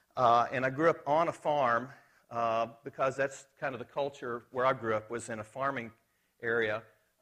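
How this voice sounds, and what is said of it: Arkansas Southern American accent. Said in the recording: “the accent is from Arkansas, where I grew up”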